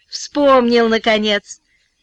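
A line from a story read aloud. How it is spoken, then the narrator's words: Laughing. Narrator (Russian): Она рассмеялась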